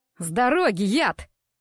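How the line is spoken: Shouted from behind. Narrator (Russian): крикнули в спину

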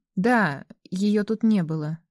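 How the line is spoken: Uncertain confirmation. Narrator (Russian): неуверенно подтвердил черный мужчина

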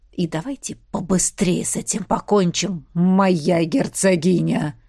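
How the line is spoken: Man hissing. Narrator (Russian): прошипел мужик

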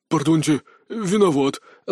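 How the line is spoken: Breathless exhale. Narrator (Russian): выдохнул он

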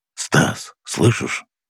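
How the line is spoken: Whisper into microphone. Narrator (Russian): прошептал он в микрофон

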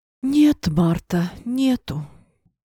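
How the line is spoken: Theatrical sigh. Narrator (Russian): картинно вздохнула хозяйка комнаты

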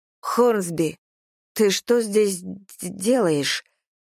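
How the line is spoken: Stammering question. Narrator (Russian): спрашиваю я, запинаясь

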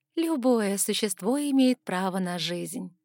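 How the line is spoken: Thoughtful drawl. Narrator (Russian): задумчиво протянула я

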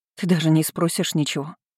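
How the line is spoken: Choked breathy exhale. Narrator (Russian): Выдохнула я, чувствуя ком в горле

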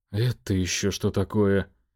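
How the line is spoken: Muttering under breath. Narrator (Russian): пробормотал себе под нос Сергей

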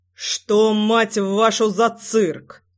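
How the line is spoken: Menacing voice. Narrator (Russian): Голос звучал грозно

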